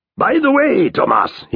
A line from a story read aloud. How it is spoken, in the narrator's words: he bellows